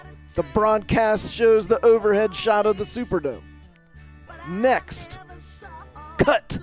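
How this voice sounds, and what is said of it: Usual voice. Nothing is said of it.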